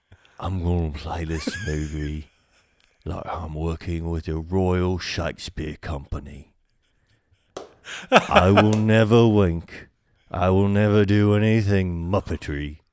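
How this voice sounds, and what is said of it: Imitates another person's voice. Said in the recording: “Can you do your best Michael Caine? ... I'll do the Michael Caine voice”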